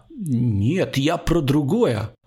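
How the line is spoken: Timid babbling. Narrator (Russian): пролепетал Алексей Дорофеев

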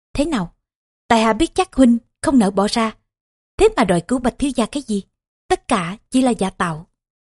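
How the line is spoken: Smiling. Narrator (Vietnamese): Công Tôn Diễn mỉm cười

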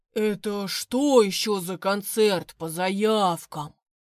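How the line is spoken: Booming. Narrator (Russian): прогудел

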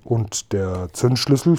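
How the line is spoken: Plain question. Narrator (German): fragte Seppel

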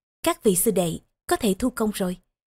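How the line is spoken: Soft. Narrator (Vietnamese): Tiểu Đồng cũng mở mắt ra, khẽ nói

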